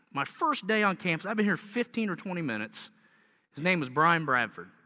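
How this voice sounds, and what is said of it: Southern accent, slightly sick voice. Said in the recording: “I'm kind of sick this morning, but you can hear my southern accent.”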